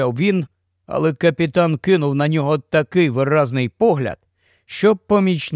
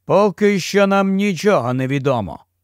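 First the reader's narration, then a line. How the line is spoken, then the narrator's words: Captain, cold. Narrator (Ukrainian): холодно сказав капітан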